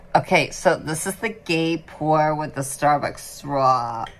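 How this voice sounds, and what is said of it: Put-on accent. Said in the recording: “What accent are you pulling out now? ... Like, you go a Starbucks straw. Straw.”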